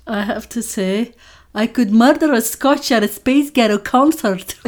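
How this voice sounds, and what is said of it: Attempted Scottish accent. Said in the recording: “say, I think, in a Scottish accent? ... I deeply apologize to any Scottish listeners”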